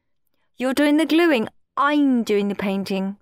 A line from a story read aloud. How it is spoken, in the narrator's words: said Claire